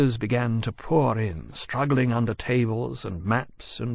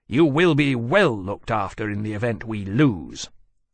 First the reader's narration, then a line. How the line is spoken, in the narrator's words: he added icily